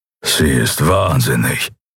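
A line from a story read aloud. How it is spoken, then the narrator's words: Grumbling. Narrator (German): brummte der Schattenskrieger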